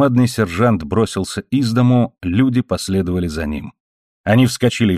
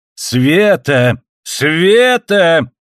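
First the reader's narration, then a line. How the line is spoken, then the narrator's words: Shrill shouting from indoors. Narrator (Russian): пронзительно кричал Дон Карлос внутри дома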